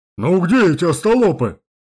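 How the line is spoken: Deep bass voice. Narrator (Russian): пробасил тот

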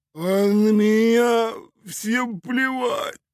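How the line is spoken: Sob. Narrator (Russian): всхлипнул Кувалда

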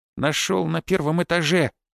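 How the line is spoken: Drawling goblin. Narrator (Russian): протянул гоблин

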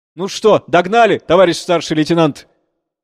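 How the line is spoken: Satisfied admiring shout. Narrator (Russian): Удовлетворенно, с оттенком восхищения, закричал коренной

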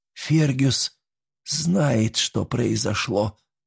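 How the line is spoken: Quiet repetition. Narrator (Russian): повторила она уже тихо

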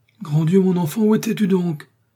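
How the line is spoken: Exclaimed. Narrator (French): s'écria M

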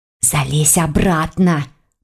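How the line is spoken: Hissing. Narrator (Russian): прошипела Лиля

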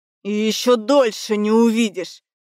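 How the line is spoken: Through gritted teeth. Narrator (Russian): процедил Элгар

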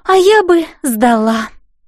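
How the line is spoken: Dreamy sigh. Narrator (Russian): мечтательно вздохнула Элси

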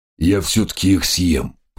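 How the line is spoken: Tiger's grumble. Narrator (Russian): проворчал тигр

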